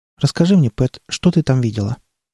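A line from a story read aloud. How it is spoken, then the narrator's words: Quiet question after pause. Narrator (Russian): После длинной паузы Скалли негромко спросила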